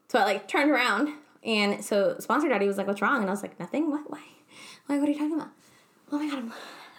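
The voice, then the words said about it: Breathless, out-of-breath excited speech. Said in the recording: “I'm out of breath now. I think this happens to me every time I get excited.”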